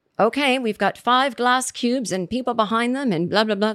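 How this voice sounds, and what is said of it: Put-on British accent. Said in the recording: “This is my British accent.”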